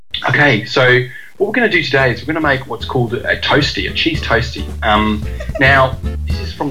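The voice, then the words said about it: Put-on Australian accent. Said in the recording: “I tend to do it in my poor Australian accent. So it's an Australian cooking show ... now that I know your Australian's good”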